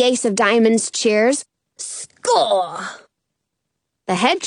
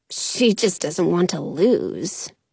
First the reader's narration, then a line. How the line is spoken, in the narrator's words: Penny mutters